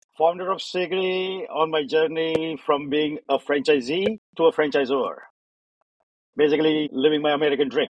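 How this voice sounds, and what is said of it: Indian-accented English. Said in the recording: “first generation immigrant from India, still struggling with the language and the accent”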